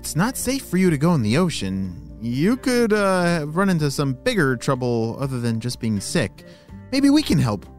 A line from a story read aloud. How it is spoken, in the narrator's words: said Logan